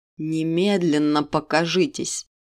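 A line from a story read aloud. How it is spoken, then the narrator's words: Demanding growl. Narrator (Russian): требовательно прорычал король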